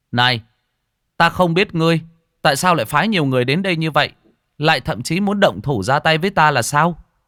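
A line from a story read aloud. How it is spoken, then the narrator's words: Loud voice. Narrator (Vietnamese): Lâm Phàm cao giọng nói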